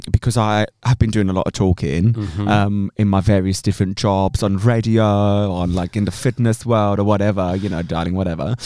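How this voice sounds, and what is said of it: Slightly raspy, sore-throated voice. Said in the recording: “I've got a slight sore throat ... my little raspy voice, which actually is quite sexy”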